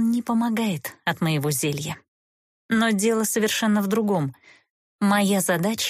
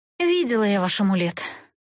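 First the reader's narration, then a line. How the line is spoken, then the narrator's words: Weary sigh. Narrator (Russian): устало вздохнула Эста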